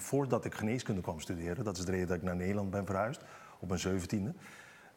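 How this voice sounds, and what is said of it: Curaçaoan accent in Dutch. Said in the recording (Dutch): “ik kom oorspronkelijk uit Curaçao ... Dan weten de kijkers ook meteen het accent te duiden”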